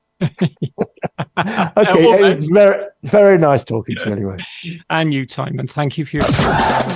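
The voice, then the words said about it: Bristolian English accent. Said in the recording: “the way you said it sounded like Shagtown ... It's my Bristolian accent, my love.”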